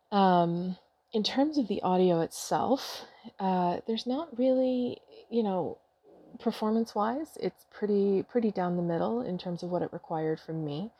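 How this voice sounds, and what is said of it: Strained, overused, fading voice. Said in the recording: “I'm losing my voice. This is part of the reason I'm taking a break, because my voice is very, very overused and strained right now ... I do apologize if I sound a little crappy right now.”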